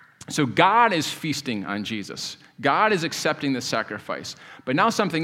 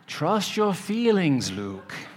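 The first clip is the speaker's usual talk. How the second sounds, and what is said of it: Imitation of Obi-Wan's voice. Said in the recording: “That was my imitation of Obi-Wan in his spirit form”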